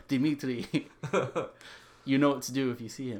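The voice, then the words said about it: Poor put-on Russian accent. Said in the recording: “That was a bad Russian accent.”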